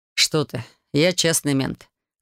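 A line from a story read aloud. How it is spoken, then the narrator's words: Short laugh. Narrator (Russian): хохотнул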